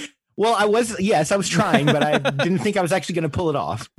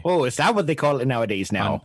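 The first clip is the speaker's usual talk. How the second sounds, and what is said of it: Put-on Midwestern Fargo accent. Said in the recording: “Were you doing your Fargo accent there? ... I can't do a Midwestern accent. ... That was pretty good. I recognized it. ... I think you pulled it most of the way off there.”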